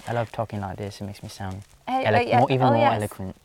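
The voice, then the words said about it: Put-on British accent. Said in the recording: “the British accent... That was a very awkward impression of a British accent... my accent was actually pretty good.”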